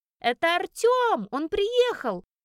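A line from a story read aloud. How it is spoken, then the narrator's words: Joyful squealing. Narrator (Russian): Радостно визжат девочки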